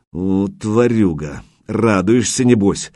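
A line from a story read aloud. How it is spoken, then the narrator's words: Angry muttering. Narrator (Russian): злобно пробормотал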